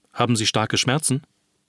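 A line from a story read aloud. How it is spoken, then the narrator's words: Plain question. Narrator (German): fragte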